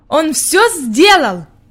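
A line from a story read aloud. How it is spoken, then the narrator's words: Exclaiming. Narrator (Russian): воскликнул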